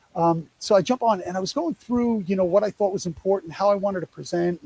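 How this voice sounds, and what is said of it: New York accent. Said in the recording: “Yes, I'm a Yankee... if you couldn't tell by my accent”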